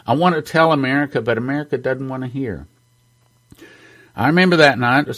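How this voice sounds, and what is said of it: Emotional, choked-up speech. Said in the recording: “I'm sorry I'm getting emotional”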